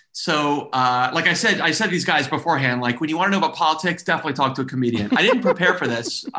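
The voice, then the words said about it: Texan American accent. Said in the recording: “This isn't a fake American accent you're doing. ... I sound very Texan.”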